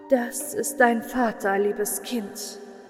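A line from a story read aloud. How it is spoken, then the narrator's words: Sad voice. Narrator (German): sagte sie mit trauriger Stimme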